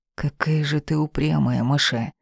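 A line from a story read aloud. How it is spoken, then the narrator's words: Through clenched teeth. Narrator (Russian): бросил сквозь зубы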